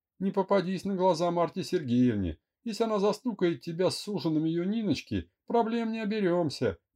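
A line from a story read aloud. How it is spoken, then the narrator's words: Cheerful giggle. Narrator (Russian): весело хихикнула Мира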